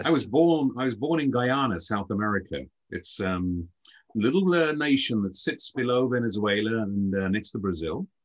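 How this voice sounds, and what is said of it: Slight British accent. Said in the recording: “you have a slight accent, so you are not from the U.S. ... you're from the U.K.”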